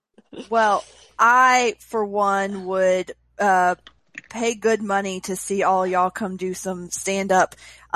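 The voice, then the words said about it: Southern US Mississippi accent. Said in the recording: “I could hear in your voice you are a Mississippi gal ... a southern accent”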